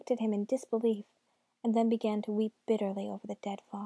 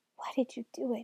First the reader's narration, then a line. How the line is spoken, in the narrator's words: muttered